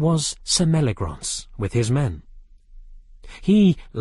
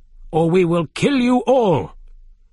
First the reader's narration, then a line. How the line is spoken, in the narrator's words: one of the men shouted